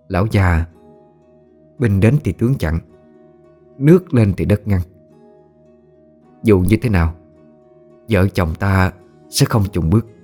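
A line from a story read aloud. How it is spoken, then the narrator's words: Extremely calm voice. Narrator (Vietnamese): Mạc phu nhân nói bằng giọng cực kỳ bình tĩnh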